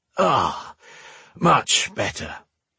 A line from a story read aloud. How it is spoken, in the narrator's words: he sighed